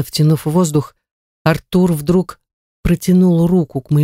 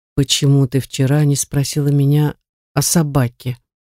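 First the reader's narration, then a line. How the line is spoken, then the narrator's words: Eerily calm question. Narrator (Russian): спросил он до жути спокойным тоном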